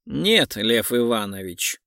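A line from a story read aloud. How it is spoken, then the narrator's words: Cold reply. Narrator (Russian): холодно ответил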